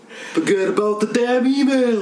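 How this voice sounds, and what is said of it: Imitates another person's voice, Brooklyn-style. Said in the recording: “your Bernie Sanders impression ... pretty good ... It's very Brooklyn.”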